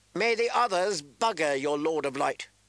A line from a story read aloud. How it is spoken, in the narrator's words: Penrose spat back